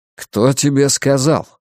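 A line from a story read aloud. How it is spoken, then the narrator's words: Angry question. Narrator (Russian): сердито спросил он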